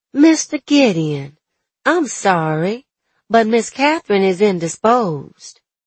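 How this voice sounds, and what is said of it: Slight Southern drawl. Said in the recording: “I put a bit of a drawl in my voice, stressing the natural cadence of my words”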